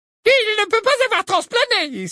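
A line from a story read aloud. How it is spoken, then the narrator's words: Exclaimed. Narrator (French): s'exclama Ombrage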